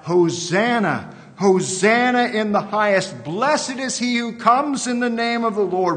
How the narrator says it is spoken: The Jewish people of the first century, the crowds on that Black Friday so long ago, those who just 5 days earlier had cried out

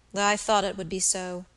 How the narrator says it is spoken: said the young man, with a weary sigh

